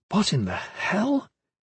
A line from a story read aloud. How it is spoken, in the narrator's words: Caris murmured